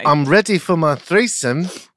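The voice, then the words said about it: Imitates another person's accent. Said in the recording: “Nice accent of hers.”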